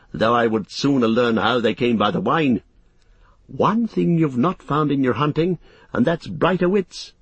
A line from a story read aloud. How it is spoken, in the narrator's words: laughed Legolas